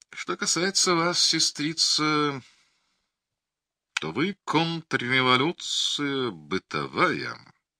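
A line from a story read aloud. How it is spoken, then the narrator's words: Quiet and crazed. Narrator (Russian): тихо и сумасшедше заговорил Ахламон Ожогов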